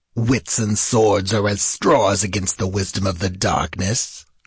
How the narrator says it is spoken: growled the Stygian

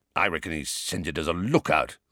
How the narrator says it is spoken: growled Moody

